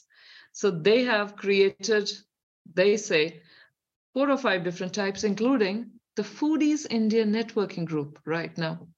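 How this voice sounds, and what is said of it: Indian accent. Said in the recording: “my accent, there's a definite Indian here, which is still deep in me”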